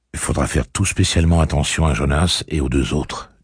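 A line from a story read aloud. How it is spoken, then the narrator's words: Plain. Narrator (French): dit-il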